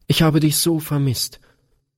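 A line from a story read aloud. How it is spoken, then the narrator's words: Sobbing outburst. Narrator (German): stieß Gretchen schluchzend hervor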